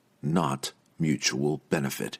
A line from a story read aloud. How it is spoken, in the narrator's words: he said quietly